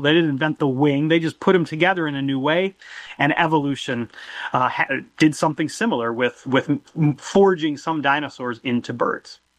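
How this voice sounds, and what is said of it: American Midwestern accent. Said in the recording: “as you can tell by his accent, he's American from Illinois.”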